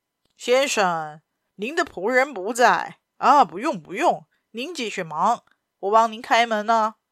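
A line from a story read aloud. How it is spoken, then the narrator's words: Loud call. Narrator (Chinese): 陌生人大声叫道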